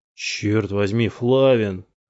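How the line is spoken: Groan. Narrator (Russian): застонал Синглер

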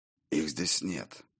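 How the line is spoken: Hoarse agreement. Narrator (Russian): хрипло согласился Скьёльд

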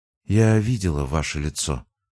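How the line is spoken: Quiet but clear. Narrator (Russian): сказала она тихо, но четко

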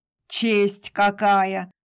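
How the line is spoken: Snorting. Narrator (Russian): фыркнул Сергей

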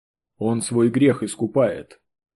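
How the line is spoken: Calm. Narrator (Russian): спокойно произнес бывший семинарист

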